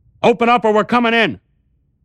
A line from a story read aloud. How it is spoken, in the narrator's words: The police went on shouting